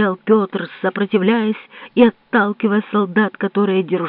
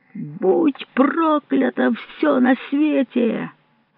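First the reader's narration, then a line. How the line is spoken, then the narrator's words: Screaming through choking sobs. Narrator (Russian): кричал Петр, задыхаясь от глубоких и страшных всхлипываний, которые не мог в себе подавить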